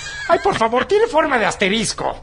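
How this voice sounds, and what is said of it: Man putting on a woman's voice. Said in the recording (Spanish): “¿Por qué siempre tiene esa voz, la pobre, güey? ... es la voz de mujer que me sale.”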